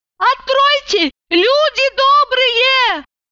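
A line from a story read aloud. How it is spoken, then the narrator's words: Shouting. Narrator (Russian): закричала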